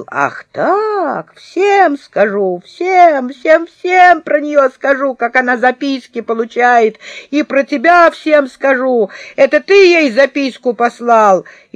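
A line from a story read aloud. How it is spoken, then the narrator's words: Howling. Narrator (Russian): Павлик взвыл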